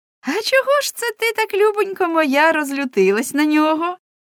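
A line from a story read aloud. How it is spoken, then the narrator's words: Said laughing. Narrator (Ukrainian): Соткін засміялась і сказала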